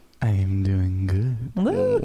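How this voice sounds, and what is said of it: Sexy, sultry voice. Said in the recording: “sexy voice. ... Very, very sultry.”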